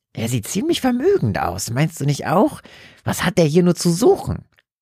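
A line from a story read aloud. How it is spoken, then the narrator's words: Crazed-sounding question. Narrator (German): seine Mutter mit einem irren Ton in der Stimme fragen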